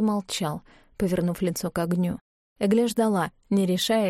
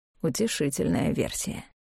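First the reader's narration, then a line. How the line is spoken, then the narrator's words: Muttered. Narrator (Russian): пробормотал Клавдий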